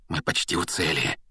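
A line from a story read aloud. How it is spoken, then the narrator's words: Sudden feverish whisper. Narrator (Russian): вдруг лихорадочно зашептал Рон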